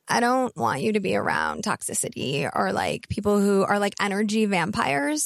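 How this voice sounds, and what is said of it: Exaggerated vocal fry voice. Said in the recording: “I have to do my best, like, vocal fry for this.”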